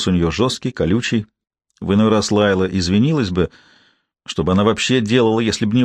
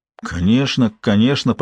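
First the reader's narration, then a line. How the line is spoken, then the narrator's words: Confused mumble. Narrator (Russian): промямлил Робертс, сбитый с толку ее категоричностью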